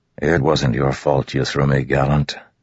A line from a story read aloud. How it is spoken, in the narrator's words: Dalinar said in a soothing voice